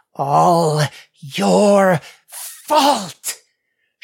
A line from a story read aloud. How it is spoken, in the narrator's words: growled through clenched teeth